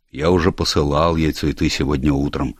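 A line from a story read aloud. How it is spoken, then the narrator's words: Plain. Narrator (Russian): сказал Челленджер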